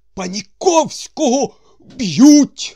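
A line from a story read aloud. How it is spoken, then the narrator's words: Shouted. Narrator (Ukrainian): закричав Балаганов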